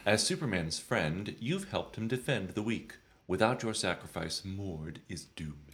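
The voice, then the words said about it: Put-on accent. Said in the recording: “I didn't quite understand your accent.”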